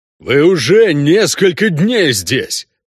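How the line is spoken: Quieter booming voice. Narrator (Russian): прогудел Шак Тарум уже не так громко, как раньше

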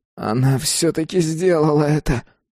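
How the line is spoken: Groaning. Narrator (Russian): простонал Джим

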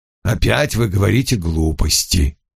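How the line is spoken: Sighing. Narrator (Russian): Вульф вздохнул

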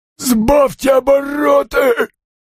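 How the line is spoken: Hoarse wheeze. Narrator (Russian): снова прохрипел Фабиан

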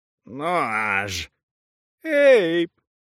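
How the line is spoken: Moaning. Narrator (Russian): стонала Ли

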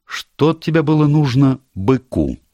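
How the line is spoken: Plain. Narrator (Russian): спросила Дженнифер

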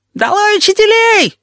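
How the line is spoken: Shrieking. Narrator (Russian): визжал Плакса

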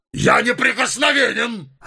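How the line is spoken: Shouted. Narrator (Russian): закричал он

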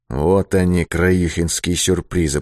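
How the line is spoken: Muttered. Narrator (Russian): пробормотал он

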